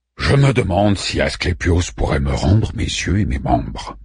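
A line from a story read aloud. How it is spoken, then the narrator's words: Grumbled. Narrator (French): grommela Orphée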